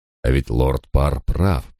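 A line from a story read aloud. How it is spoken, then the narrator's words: Weary thought. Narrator (Russian): подумал я устало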